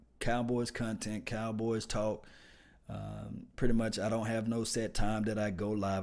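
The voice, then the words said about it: Mississippi accent. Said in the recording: “I'm from Mississippi, so I have a Mississippi accent... why you sound like that?”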